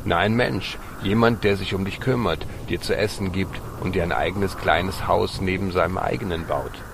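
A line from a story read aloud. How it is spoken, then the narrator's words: Dog barking happily. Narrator (German): Der Hund bellte fröhlich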